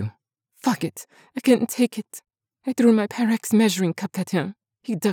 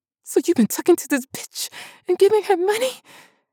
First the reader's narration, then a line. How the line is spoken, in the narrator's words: I screamed